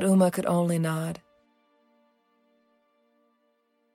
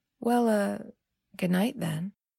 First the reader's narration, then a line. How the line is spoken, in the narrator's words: Dap said slowly